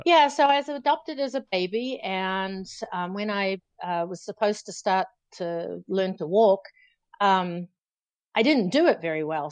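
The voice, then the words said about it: New Zealand accent. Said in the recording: “born New Zealand, I think everybody will gather that by now from your accent”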